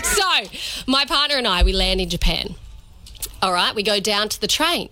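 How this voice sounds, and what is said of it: Australian accent. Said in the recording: “A little Australian twang there on her”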